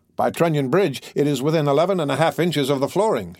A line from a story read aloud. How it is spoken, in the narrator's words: he went on, the words coming quickly and with a little whistling noise from between his teeth